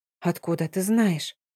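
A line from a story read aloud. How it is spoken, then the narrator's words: Quiet, voice slightly breaking. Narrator (Russian): Я говорила тихо, опасаясь вызвать непослушное эхо в гулких коридорах, но голос все равно немного сорвался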